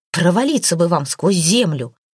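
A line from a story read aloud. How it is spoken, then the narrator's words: Angry shout. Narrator (Russian): Когда Лачи заметил, что они в него целят, то рассердился и закричал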